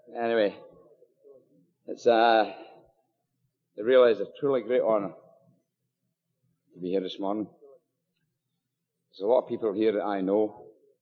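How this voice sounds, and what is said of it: Scottish accent. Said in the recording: “I'm afraid you've got the Scottish accent this morning. You'll have to decipher it.”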